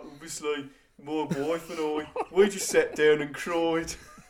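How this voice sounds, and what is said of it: Put-on Brummie accent. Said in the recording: “I'm sure he had a Brummy accent.”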